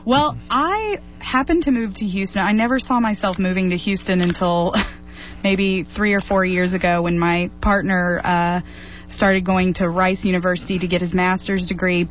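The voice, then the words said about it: Slight Southern US twang. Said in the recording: “detect a southern twang... There is a southern twang... A slight southern twang underneath”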